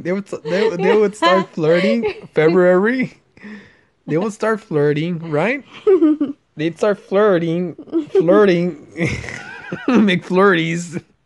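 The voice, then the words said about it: Speaks with a noticeable accent. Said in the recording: “Why are you laughing at my accent, dude? ... It's cute.”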